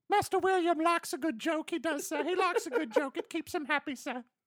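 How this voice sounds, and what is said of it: British orphan boy, house-elf-like voice. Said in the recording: “the correct orphan British accent ... I think that was more house elf, though ... my orphan boy warped into a little bit of Dobie the House Elf”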